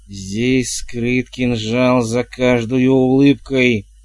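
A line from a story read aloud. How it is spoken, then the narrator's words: Hissed. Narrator (Russian): прошипел он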